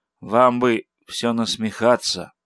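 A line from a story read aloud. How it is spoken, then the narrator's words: Muffled, hollow voice. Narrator (Russian): сказал глухо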